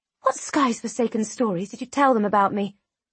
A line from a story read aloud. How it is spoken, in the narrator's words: I hiss at him